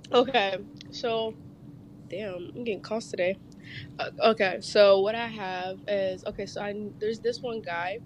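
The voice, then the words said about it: Hoarse, weak, nearly lost voice. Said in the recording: “Just got the Rona. ... You can hear it in my voice. My voice is gone.”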